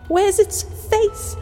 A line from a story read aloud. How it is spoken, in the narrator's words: She said, as her eyes darted frantically